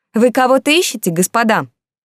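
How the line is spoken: Loud question. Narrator (Russian): я громко спросила

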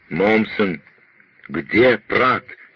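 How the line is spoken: Wild shout. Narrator (Russian): дико крикнул Пиркс

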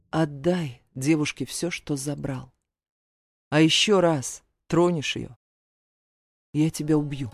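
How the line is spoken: Calm male voice. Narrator (Russian): Мужчина спокойно произнес

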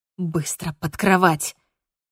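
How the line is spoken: Hissing. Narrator (Russian): Прошипел мне он

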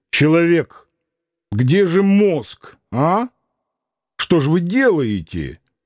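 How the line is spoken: Reproachful voice. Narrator (Russian): упрекающим голосом спросил

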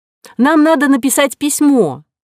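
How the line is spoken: Exclaiming. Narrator (Russian): воскликнула Нинеля

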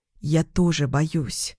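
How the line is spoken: Whisper. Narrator (Russian): прошептала я

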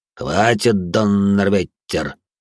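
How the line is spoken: Through gritted teeth. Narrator (Russian): процедил Винсент

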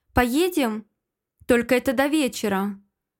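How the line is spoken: Cold. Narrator (Russian): отвечает холодно

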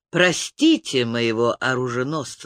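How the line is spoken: Plain. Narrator (Russian): сказал рыцарь

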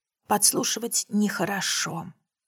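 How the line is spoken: Mutter. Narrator (Russian): пробормотала Дженни

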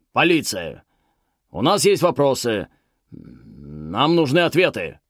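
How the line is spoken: Barking shout. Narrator (Russian): рявкнул

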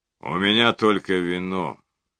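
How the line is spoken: Gloomy announcement. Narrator (Russian): мрачно объявил

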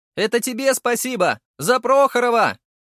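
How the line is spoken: Ecstatic shout. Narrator (Russian): прокричал Сергей невероятно счастливым голосом

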